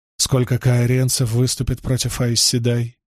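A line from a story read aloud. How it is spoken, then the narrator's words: Calm question. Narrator (Russian): спокойно спросил Перин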